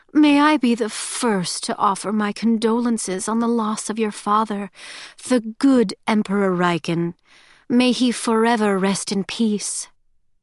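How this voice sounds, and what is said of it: Saccharine, sickly-sweet voice. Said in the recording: “Levana said in a saccharine voice”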